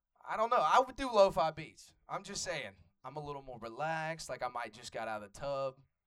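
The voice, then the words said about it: Atlanta Southern accent. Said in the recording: “Atlanta native, so if y'all can't tell with the, you know, the accent”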